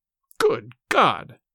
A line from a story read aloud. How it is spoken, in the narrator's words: cried the stricken father